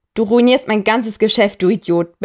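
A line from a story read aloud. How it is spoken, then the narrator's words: Barked angrily. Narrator (German): bellt sein Gegenüber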